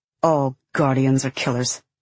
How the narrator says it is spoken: he snaps bitterly

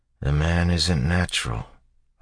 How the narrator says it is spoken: Rudd muttered

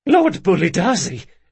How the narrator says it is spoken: Locke sputtered

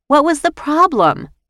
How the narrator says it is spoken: wailed

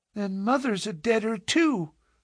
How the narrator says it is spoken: cried the little girl, sobbing bitterly

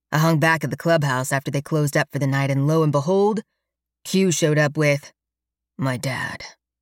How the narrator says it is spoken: Alex says grimly

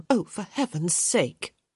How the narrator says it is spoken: Hyacinth muttered

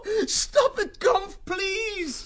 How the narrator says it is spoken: Martin begged

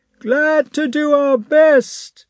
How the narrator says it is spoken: shouted the soldiers

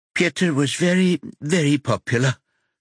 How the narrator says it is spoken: she says in a tremulous voice, then tries to catch her breath

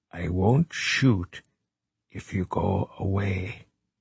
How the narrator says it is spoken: he said quietly

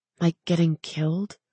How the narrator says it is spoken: She said under her breath

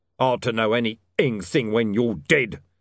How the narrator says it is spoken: snarled Mr

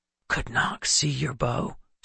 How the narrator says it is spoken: Seth whispered

